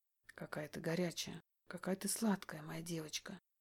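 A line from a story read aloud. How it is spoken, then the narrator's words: Murmuring. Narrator (Russian): бормочет он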